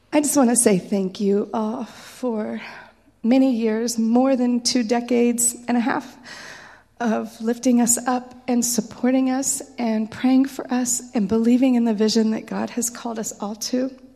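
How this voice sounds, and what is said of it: Emotional, hoarse froggy voice. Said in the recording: “a little bit emotional and a little bit froggy”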